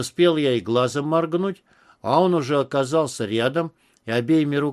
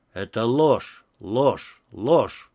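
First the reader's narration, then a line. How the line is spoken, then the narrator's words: Muttering. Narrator (Russian): бормоча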